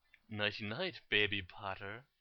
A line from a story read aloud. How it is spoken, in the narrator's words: cooed Bellatrix